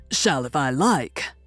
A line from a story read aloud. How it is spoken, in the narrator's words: growled Erlich